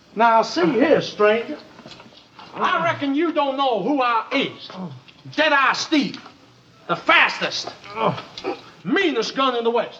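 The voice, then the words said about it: Put-on Old West cowboy accent. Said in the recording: “starts practicing his Old West accent.”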